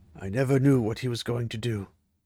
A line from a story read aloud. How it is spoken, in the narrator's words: Ingtar said softly, as if talking to himself